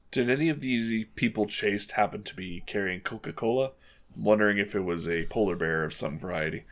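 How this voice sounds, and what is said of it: Put-on character accent. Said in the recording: “Lovely accent you have there.”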